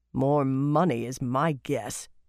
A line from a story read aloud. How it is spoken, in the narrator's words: growled